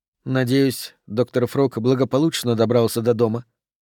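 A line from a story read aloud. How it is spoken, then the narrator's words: Mumbled. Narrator (Russian): пробормотала Марго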